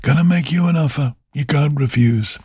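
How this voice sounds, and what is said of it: Bad impression of another person's voice. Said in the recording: “doing a bad impersonation of Marlon Brando”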